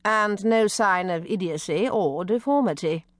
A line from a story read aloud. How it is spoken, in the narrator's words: Lady Waldo said dryly